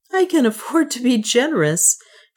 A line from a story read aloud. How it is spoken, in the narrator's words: she said with a little laugh